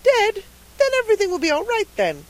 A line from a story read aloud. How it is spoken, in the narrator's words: cried the rosy lady jubilantly